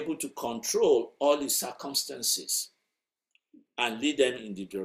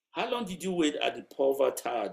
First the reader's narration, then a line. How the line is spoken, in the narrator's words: the professor asked